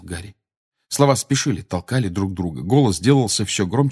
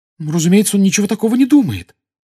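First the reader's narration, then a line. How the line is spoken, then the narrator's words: Agitated exclamation. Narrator (Russian): с волнением воскликнула Гермиона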